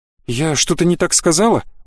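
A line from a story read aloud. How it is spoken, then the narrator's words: Frightened question. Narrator (Russian): Увидев выражение моего лица, испуганно спросила Ирма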